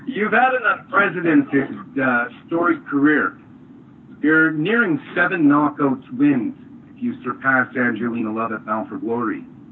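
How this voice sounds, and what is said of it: Canadian accent. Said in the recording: “Calling you from Canada today. ... Hey, I can hear the accent.”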